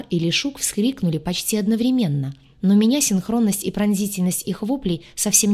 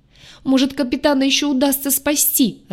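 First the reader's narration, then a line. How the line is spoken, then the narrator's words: Sobbing. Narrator (Russian): рыдала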